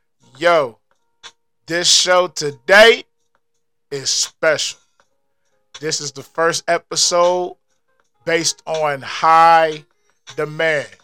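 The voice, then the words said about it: Hyped DJ-style character voice. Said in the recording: “in my DJ Cali voice.”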